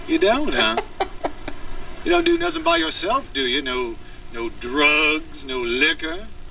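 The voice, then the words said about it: Southern American accent. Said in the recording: “I like the accent. ... This dude's like straight out of the South.”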